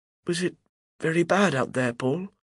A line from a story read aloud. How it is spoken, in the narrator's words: asks hesitantly